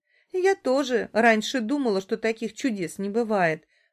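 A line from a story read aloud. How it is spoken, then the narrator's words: Smiling through tears. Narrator (Russian): улыбается сквозь слезы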